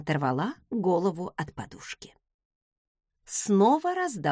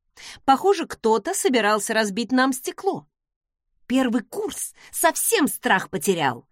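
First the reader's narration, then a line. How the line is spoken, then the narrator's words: Through gritted teeth. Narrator (Russian): процедила я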